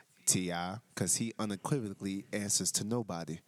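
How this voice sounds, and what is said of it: Poor T.I. voice imitation. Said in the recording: “I wanted to try to do my T.I. accent. It sucked.”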